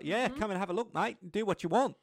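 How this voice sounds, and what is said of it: Put-on Australian accent. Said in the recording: “sorry, I can't help myself. You know, just like, I'm sure Australians do it for the British accent.”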